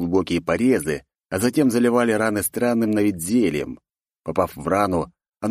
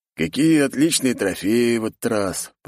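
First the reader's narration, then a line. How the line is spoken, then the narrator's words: Man muttering under breath. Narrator (Russian): пробормотал себе под нос мужчина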